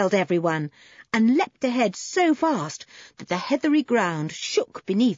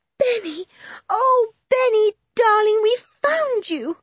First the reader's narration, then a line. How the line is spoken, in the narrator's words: cried Anne